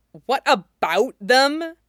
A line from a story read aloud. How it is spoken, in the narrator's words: Jin Zixin snapped